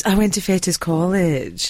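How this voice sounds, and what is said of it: Put-on posh Scottish accent. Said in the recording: “my Scottish impression ... a very posh ... Scottish person”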